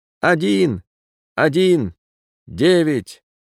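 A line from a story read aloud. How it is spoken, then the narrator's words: Fierce strained young yell. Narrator (Russian): кто-то страшно заорал, свирепо надсаживаясь молодым звонким голосом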